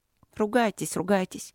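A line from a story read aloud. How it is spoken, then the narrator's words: Reproachful mutter. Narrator (Russian): пробормотала она укоризненно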